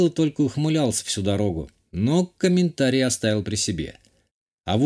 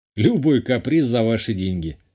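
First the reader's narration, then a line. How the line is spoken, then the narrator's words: Smirking. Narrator (Russian): хмыкнул я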